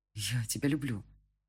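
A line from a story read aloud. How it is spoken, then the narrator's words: Surprised breathless confession. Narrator (Russian): выдохнул я, сам не ожидая от себя именно этих слов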